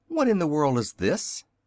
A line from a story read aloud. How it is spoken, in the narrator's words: suddenly exclaimed the little Wizard